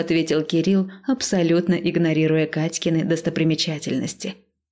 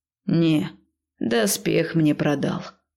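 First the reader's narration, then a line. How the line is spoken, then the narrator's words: Sad reply. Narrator (Russian): грустно отозвался бухгалтер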